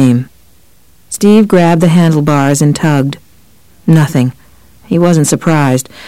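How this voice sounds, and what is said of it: Usual voice. Nothing is said of it.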